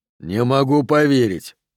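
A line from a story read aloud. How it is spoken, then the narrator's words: Growled. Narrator (Russian): рычал де Агоста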